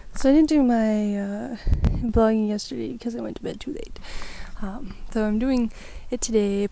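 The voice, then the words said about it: Congested, stuffy-nosed voice. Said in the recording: “My nose is all stuffed up. I'm a little congested ... my voice might be all crazy. I'm breathing all weird.”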